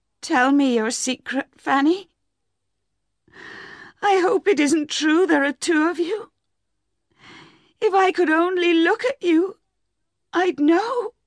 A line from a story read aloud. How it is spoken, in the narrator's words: she cried